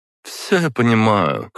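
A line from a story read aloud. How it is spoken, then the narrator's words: Snort. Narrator (Russian): хмыкнула Зара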